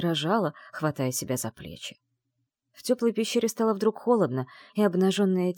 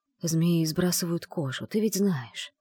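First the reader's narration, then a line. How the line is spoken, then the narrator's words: Fast whisper. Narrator (Russian): быстро зашептал он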